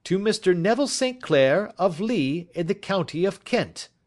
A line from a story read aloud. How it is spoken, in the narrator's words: he shouted